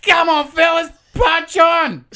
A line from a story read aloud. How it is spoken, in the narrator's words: Rossini probably coked off his tits and juiced up on strawberry milkshakes, yelled to the trio from the car